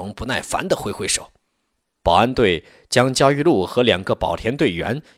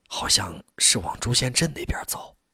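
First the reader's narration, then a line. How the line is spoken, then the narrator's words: Whispered answer. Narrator (Chinese): 那个队员悄声回答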